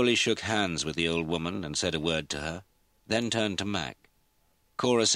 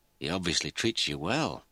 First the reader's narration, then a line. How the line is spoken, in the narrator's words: Mac murmured